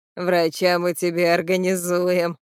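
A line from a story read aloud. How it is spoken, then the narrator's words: Chuckling. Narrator (Russian): хохотнул он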